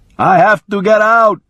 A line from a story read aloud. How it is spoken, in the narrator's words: he shouted